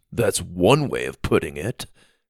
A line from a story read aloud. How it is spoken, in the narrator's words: Dallas scoffed